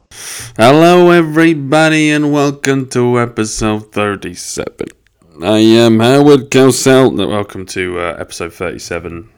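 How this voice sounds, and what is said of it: Bad imitation of a sportscaster. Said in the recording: “That's a really bad Howard Cosell impression. ... that was terrible”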